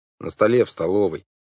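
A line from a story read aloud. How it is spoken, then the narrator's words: Gloomy. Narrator (Russian): мрачно ответил Клаус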